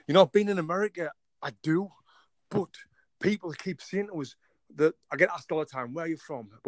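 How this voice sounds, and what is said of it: English accent. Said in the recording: “I love your accent ... the last place someone thinks I'm from with this accent is England. I'm actually from England ... I knew instantly you were from the UK or Britain for sure”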